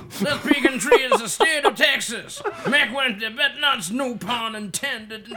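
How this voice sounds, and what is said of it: Put-on Texas accent. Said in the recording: “read out that whole thing in a Texas accent”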